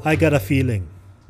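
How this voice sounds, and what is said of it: Deep voice. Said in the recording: “deep voice”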